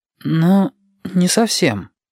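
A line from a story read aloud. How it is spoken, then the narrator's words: Uncertain. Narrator (Russian): неуверенно сказал Юкки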